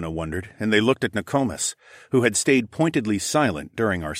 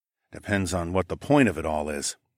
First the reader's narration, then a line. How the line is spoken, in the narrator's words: murmured